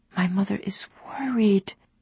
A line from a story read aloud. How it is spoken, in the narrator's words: Ali whispered, not wanting to rouse the sleeping servants